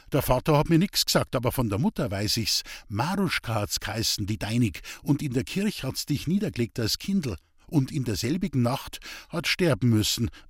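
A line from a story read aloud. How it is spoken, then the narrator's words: Plain. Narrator (German): sagt Mutter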